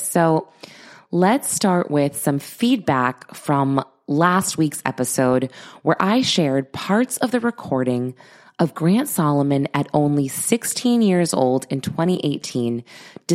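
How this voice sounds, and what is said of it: Congested voice from a cold. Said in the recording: “I am getting over a cold, so bear with me. ... My voice is so gross right now.”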